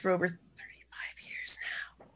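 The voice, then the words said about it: Whispered speech. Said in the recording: “I'm whispering that”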